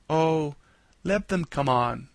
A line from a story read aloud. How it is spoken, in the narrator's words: said Jip